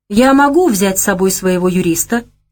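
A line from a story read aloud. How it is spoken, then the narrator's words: Plain. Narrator (Russian): спросил Леша шкаф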